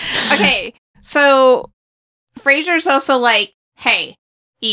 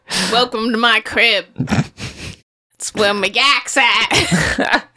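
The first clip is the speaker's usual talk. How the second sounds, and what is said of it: Bad put-on Boston accent. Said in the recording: “in the worst Boston accent I've ever heard.”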